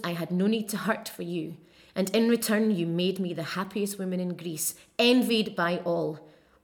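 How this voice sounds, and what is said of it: Scottish Stirling accent. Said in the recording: “My accent is a Stirling accent, which is central Scotland. Kind of sandwiched in between Glasgow and Edinburgh, so a bit of a mix of both, and also on the steps to the north of Scotland, so it has a hint of that too.”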